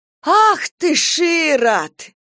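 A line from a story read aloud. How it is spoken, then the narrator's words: Exclaiming. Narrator (Russian): воскликнула Ольга Егоровна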